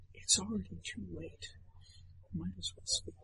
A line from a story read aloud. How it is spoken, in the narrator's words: Andretti whispers to Wolfgang